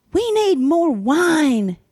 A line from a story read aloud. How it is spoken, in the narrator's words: Janie yelled